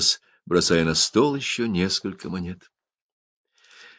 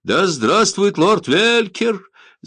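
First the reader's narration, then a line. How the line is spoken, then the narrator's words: Shout nearby. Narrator (Russian): закричал рядом кто-то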